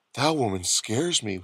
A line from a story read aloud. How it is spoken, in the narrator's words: Herbie whispered to Manitoulin and Bob